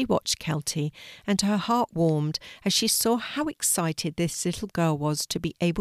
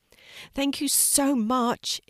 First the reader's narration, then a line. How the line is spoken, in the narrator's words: exclaimed Kelti as she jumped up and down with glee